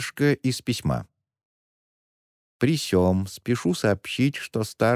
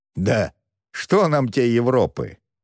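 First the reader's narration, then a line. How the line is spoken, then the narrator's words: Scoffing grunt. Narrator (Russian): хмыкнул караванщик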